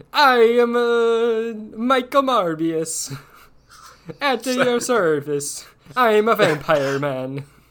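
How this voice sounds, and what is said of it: Bad Italian accent, Jared Leto impression. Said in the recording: “the worst Italian accent in that one movie about Gucci ... In a sea of bad accents, he somehow managed to be a cut above ... Got a little Swedish chef there ... It was bad ... He was doing it bad on purpose ... an Irish-Italian”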